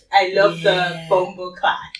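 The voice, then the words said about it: Put-on Jamaican accent. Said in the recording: “one thing I like about Jamaica is the accent... she put her whole chest into that”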